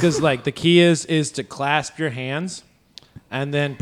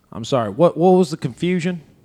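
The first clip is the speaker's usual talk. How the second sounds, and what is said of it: Imitates another person's voice. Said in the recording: “impersonate Jerry Wayne Longmire ... pretend like you have a dip in the back of your jaw”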